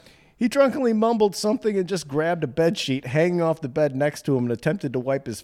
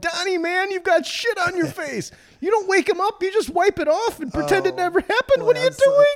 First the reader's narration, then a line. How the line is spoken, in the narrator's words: We immediately shook Donnie awake and yelled